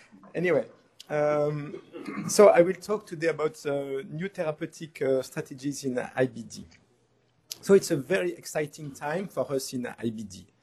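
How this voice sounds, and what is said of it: Strong French accent in English. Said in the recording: “a strong French accent. ... I'm not able to lose this French accent.”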